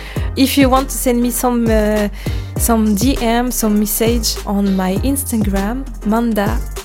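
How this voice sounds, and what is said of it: Non-native accent speaking English. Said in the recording (French): “Sorry for my English, my bad English accent”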